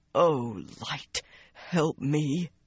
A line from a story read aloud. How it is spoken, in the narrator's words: he moaned